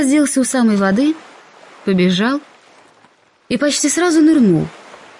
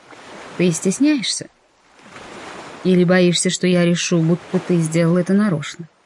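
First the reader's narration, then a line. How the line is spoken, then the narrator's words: Very calm. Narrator (Russian): очень спокойно уточнил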